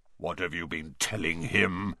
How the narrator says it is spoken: growled Bane

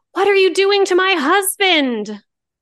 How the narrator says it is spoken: Rosemary screamed

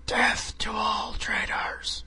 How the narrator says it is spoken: Megatron screaming

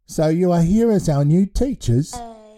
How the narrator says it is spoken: Blue Milk giggled and then cried

